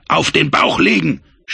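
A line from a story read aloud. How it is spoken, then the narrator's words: Shouted order. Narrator (German): schrie ihnen Frank zu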